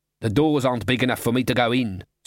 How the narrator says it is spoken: snapped Glod

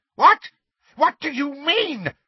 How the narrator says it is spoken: she cried, and for the first time there was fear in her voice

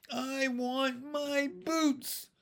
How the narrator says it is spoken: she howled and began to cry again

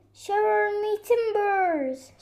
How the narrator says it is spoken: shouted Squirrel

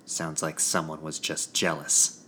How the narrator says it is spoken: Quinn spat

